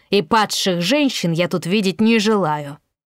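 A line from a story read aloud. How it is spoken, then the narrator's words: Barking. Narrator (Russian): рявкнул он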